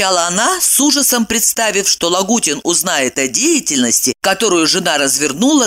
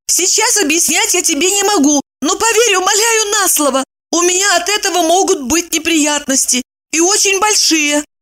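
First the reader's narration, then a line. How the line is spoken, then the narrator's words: Exaggerated exclamation. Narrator (Russian): воскликнула Евдокия, нарочно сгущая краски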